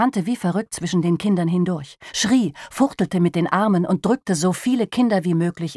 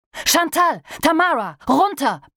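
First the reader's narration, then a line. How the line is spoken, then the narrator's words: Bellowing. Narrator (German): brüllte er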